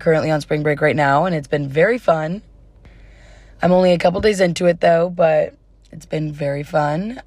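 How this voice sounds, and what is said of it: Slightly hoarse, fading voice. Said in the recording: “I'm kind of losing my voice a little bit ... if I sound a little bit different besides the part of me losing my voice”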